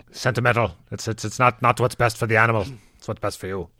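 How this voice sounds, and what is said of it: Well-done imitated accent of another person. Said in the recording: “That's a perfect accent. I hope you do it more. ... Glenn has a much better McGowan than I do.”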